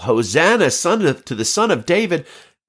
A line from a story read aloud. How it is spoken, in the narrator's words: children shouting